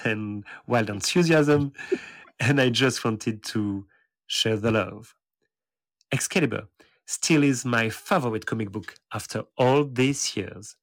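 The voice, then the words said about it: Strong French accent in English. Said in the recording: “perhaps Nightcrawler's biggest French fan ... my despicable accent”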